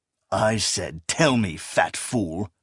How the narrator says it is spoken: he hissed between clenched teeth

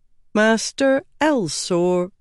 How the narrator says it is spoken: said Jinnar slowly

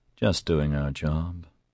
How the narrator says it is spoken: Oscar mumbled

